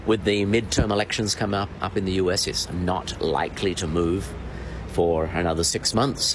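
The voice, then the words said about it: Australian accent. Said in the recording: “as you notice with the accent, I think he's originally from Adelaide”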